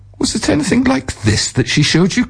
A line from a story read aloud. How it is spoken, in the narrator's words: cried the sober man